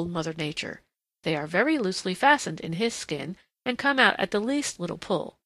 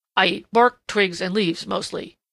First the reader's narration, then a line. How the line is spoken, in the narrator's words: grunted Prickly Porky ungraciously